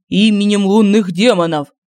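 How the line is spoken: Full-throated yell. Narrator (Russian): Во всю глотку проорал Семен

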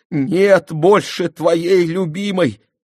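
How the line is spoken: Sobbing. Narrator (Russian): рыдая, сказала

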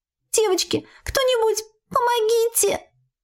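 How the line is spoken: Squeaking, slight elf girl. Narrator (Russian): Пискнула тоненькая эльфийка

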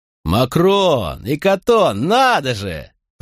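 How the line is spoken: Booming. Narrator (Russian): прогудел он

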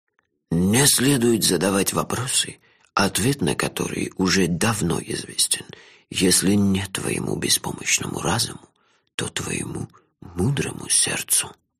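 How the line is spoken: Old man's whisper. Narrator (Russian): шепнул мне старик

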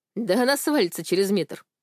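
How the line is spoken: Snorting. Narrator (Russian): хмыкнул Алик

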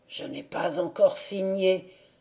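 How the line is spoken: Murmuring. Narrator (French): murmura-t-il

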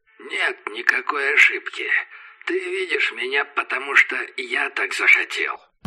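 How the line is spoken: Creaky voice. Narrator (Russian): проскрипел Мэтриус Винг

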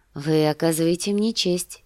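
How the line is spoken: Tender reply. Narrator (Russian): ответила она ласково

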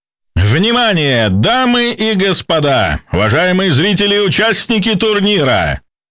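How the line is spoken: Solemn announcer's shout. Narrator (Russian): Торжественно прокричал ведущий

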